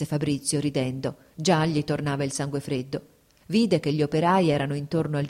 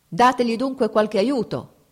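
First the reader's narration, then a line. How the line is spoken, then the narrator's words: Shouted. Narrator (Italian): gridò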